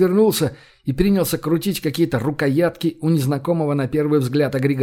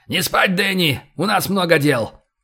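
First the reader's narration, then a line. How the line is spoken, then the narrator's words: Shouted. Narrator (Russian): Кэп крикнул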